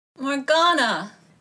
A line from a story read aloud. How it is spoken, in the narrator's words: groaned